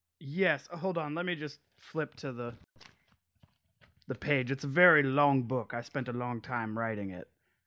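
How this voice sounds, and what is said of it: Speaks in a put-on accent. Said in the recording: “Why did your accent change?”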